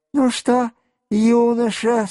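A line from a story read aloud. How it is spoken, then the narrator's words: Said with a sigh. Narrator (Russian): сказал он, вздохнув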